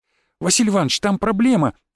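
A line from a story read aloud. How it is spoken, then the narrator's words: Agitated announcement. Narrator (Russian): взволнованно заявил он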